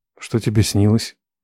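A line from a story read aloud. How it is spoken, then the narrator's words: Quiet question. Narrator (Russian): тихо спросил я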